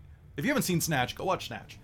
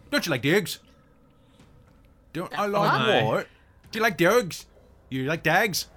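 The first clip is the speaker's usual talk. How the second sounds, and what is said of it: Exaggerated, hard-to-understand Irish traveller accent. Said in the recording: “doing like a caravanner Irish accent... Like the Irish Roma... he is so bad at it, he's incomprehensible”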